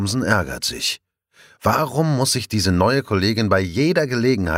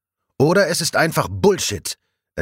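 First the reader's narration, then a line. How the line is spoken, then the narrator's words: Loud, clear retort. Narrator (German): entgegnet Sophie laut und deutlich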